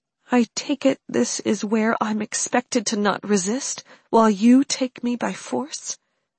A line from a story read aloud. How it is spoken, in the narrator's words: Mary asked, her voice subdued